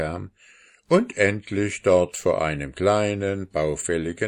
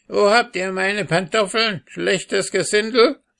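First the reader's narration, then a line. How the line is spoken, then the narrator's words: Old woman shouting angrily. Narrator (German): rief die Alte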